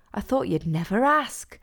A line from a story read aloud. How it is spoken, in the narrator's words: said, gasping dramatically